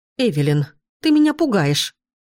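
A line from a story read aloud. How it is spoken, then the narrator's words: Exclaimed. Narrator (Russian): воскликнула мать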